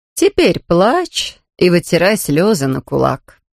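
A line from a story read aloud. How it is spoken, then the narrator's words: Calm. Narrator (Russian): спокойно сказала Люба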